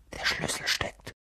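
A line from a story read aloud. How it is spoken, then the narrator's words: Whisper. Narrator (German): flüsterte Harry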